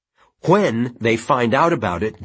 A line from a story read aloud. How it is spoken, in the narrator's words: Janet said hotly